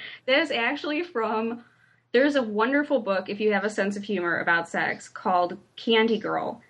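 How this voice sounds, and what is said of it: Usual voice. Nothing is said of it.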